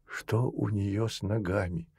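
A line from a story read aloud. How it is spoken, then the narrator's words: Whispered question. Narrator (Russian): шепотом спросила Наста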